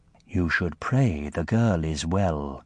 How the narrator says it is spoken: she added in her smoky voice

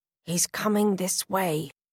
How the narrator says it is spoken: hisses Connor

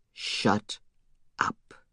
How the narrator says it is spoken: he said, his voice so quiet, so menacing

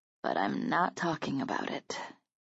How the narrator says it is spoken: I answered softly

